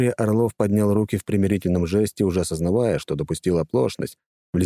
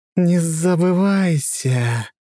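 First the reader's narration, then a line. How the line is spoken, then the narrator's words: Snake-like hiss. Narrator (Russian): Эфа натурально зашипела змеей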